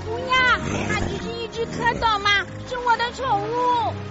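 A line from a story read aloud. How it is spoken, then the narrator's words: Shouting. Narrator (Chinese): 路易大叫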